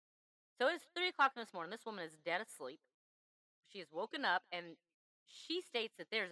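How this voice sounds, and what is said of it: Usual voice. Nothing is said of it.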